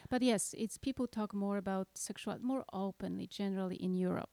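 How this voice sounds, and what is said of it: Mixed Polish and Norwegian accent. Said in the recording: “my accent ... It's a mixture of two languages. It's Polish and Norwegian.”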